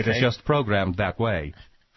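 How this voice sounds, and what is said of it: Stephen Hawking's computer voice. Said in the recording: “even his computer voice has a slight British accent. ... No, it's a Swedish accent. All his computer voices sound Swedish.”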